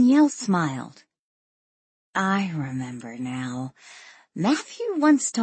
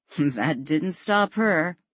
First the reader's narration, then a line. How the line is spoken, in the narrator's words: Ian chuckled